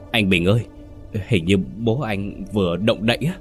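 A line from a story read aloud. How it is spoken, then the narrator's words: Pale frightened stammering. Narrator (Vietnamese): tái mặt, một người lắp bắp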